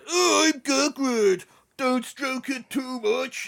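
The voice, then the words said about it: Imitates Hagrid character voice. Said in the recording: “I can't do an impression of Gagrid”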